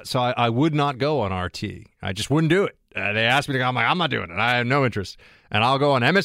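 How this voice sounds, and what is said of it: Usual voice. Nothing is said of it.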